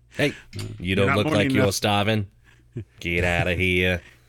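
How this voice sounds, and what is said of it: Put-on Australian accent. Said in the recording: “They're in this kind of the same part of the world. The same hemisphere. That's why I use that accent.”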